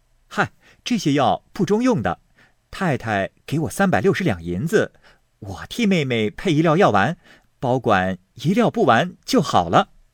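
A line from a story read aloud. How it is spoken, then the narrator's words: Laughing. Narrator (Chinese): 宝玉笑道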